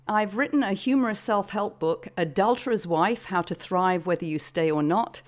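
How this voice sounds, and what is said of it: British accent. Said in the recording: “as you can probably tell from my accent, I am a Brit”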